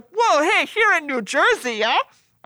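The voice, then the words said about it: Put-on Canadian accent. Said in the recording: “Everyone has a Canadian accent.”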